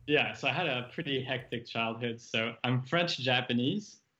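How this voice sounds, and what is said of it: Slight hard-to-place foreign accent. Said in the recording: “you have a little bit of an accent, but you know, I can't really tell where it's from”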